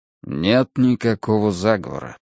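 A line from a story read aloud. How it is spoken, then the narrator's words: Quiet. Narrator (Russian): сказал тихо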